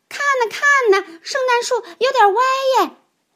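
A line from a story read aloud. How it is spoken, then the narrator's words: Children exclaiming. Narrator (Chinese): 孩子们立刻叫了起来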